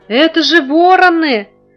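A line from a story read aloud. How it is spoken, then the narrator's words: Frightened shout. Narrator (Russian): испуганно крикнул Витя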